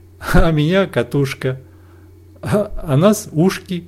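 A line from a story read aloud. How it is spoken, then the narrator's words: Laughing twin gnomes. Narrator (Russian): смеялись гномики-близнецы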